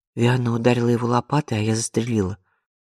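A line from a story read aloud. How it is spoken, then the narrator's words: Calm statement. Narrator (Russian): спокойно сообщила Изабель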